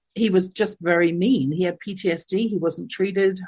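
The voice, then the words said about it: English accent from London. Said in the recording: “growing up in my household in London, England, you can tell from my accent, I wasn't born in North America”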